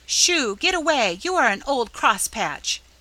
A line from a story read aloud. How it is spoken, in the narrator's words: cried Nan, ungratefully, as she gave up the attempt in despair